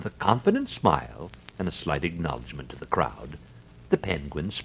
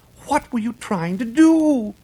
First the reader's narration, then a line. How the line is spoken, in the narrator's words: cried